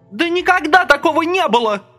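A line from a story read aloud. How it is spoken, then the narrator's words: Shouting. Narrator (Russian): кричала Люська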